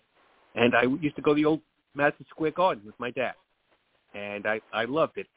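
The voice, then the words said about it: New York accent. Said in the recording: “When I grew up in New York, as maybe everyone knows from this accent”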